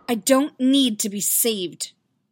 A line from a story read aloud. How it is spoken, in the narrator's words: Padme spat